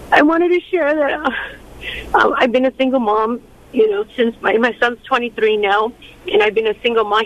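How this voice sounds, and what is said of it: Emotional voice. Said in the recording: “I'm a little bit emotional right now.”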